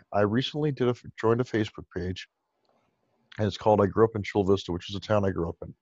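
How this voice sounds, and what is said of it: Hoarse, strained voice. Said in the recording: “I'm losing my voice. I've done so many calls today.”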